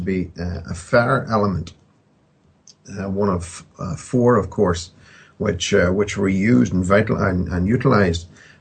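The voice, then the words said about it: Strong accent, 'fire' sounds like 'fair'. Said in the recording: “Sorry, I apologize for my accent. ... I didn't understand a word you were saying. Could you please speak up and speak in Queen's English, please? ... I thought you were saying a fairy element.”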